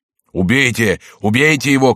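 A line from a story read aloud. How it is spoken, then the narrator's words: Crowd shouting urgently. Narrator (Russian): кричала толпа, видя, что жертва готова ускользнуть от нее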